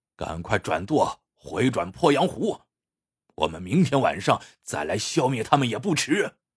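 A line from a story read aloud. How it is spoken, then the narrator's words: Grim, determined. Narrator (Chinese): 霍都狠狠的一咬牙，说道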